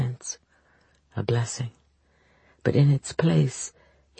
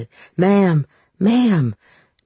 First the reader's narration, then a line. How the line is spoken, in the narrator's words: Denver shouted